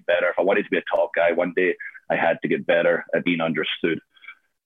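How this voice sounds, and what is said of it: Foreign accent. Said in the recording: “I would speak so fast because of my accent”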